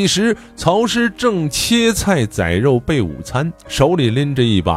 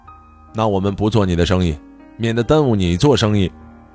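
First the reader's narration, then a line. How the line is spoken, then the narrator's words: Cold. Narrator (Chinese): 曹师 冷冷地说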